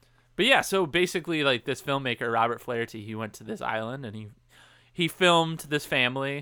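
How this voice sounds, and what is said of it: Usual voice. Nothing is said of it.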